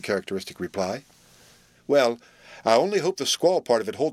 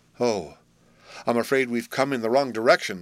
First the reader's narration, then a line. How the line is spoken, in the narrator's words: sighed tender-hearted Will, shaking his head dubiously